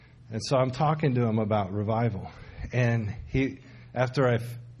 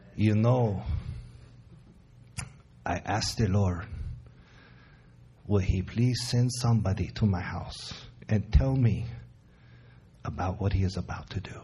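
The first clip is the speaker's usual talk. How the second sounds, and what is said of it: Imitated Hispanic accent. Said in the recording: “in a Hispanic accent, I'll try to do it for you”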